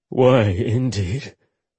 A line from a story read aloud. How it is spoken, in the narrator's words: Holly muttered, sounding bitter